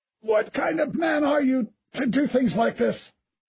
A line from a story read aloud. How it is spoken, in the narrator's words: Stratton gasped, his cheek flattened against the brick floor